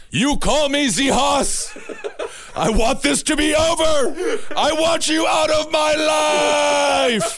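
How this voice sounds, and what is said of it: Yelling. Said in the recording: “could you stop yelling?”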